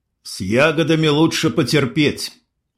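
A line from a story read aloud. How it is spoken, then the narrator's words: Gloomy. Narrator (Russian): мрачно кивнул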